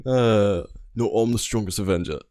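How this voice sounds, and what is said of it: Imitates Thor's voice. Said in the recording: “That was a beautiful Thor impersonation.”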